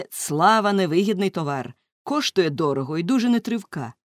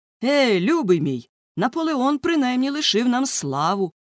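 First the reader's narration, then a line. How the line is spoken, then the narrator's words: Exclaimed. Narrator (Ukrainian): вигукнув морський офіцер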